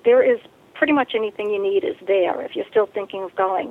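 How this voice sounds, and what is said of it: Speaks with a noticeable accent. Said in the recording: “you might want to spell that because of my accent.”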